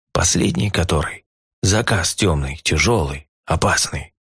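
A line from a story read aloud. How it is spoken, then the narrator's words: Lowered to a whisper. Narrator (Russian): понизил Грикс голос до шепота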